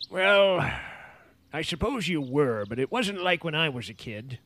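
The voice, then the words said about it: Put-on old man voice. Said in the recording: “why are you affecting that old man voice?”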